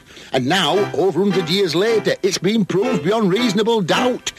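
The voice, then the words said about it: Good put-on Yorkshire accent. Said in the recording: “you sound good with a Yorkshire accent”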